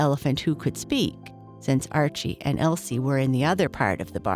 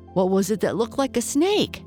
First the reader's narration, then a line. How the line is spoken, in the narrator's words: howled Nip